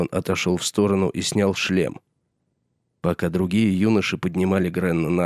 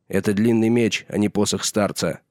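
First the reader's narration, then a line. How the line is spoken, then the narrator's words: Sharp curt retort. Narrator (Russian): резко бросил сир Алисер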